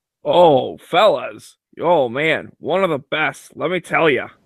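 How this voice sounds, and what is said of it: Weak impression of Clint Smith. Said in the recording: “That wasn't a good enough impression of him? ... Clint Smith ... you're not getting the mimic part down.”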